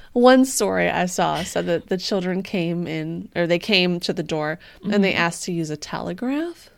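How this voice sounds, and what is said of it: Usual voice. Nothing is said of it.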